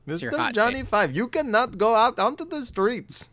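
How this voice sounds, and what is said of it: Exaggerated put-on Indian accent. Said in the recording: “impersonating another white guy impersonating an Indian”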